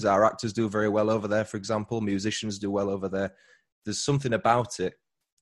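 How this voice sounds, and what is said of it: British accent. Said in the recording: “a lot of comments on the accent ... someone is fond of all things British”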